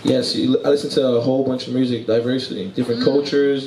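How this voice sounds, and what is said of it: Brooklyn New York accent. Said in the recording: “I hear how your accent is very different. ... I am from New York, Brooklyn, New York”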